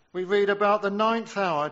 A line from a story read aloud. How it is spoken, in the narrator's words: Jesus cried with a loud voice, saying,